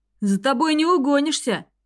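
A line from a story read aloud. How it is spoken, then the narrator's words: Shouted after someone. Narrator (Russian): крикнул он в спину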